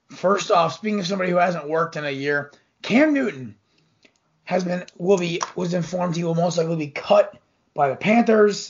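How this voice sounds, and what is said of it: Hoarse voice. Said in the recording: “my voice is still a little hoarse. It's allergy season”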